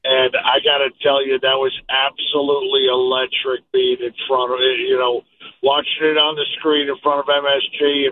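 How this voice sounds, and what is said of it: Strained, worn-out voice. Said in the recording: “You got to excuse my voice.”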